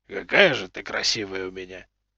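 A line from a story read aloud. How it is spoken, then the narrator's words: Soft purr into beard. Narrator (Russian): Тихо промурлыкал он в бороду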